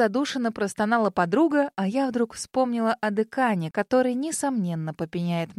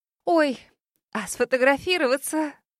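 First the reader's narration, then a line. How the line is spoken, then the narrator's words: Sudden exclamation. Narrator (Russian): Вдруг воскликнула блогерша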